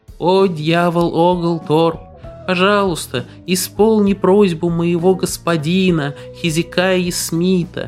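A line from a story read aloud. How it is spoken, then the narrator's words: Squeaky little voice. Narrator (Russian): молитва заговорила писклявым голоском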